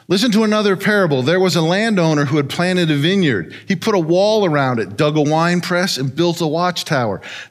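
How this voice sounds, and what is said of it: Very fast auctioneer-style reading. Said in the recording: “my best imitation of an auctioneer and go through this pretty quick.”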